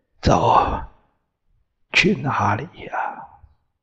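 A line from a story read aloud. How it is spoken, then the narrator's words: Hoarse, timid, lost. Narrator (Chinese): 声音嘶哑、胆怯、茫然、孤苦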